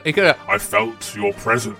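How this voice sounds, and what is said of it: Bad Darth Vader impression. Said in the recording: “that was the worst Darth Vader impression I've ever.”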